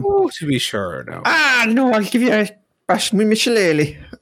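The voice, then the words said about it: Exaggerated put-on Irish accent. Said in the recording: “does a quite offensive Irish accent”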